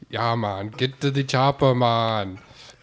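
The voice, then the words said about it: Put-on Jamaican accent, Russian-tinged. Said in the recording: “a Jamaican accent... it has a little Russian mixed into it. Like a Russian immigrant... a Jamaican Russian accent... it's like Arnold Schwarzenegger now”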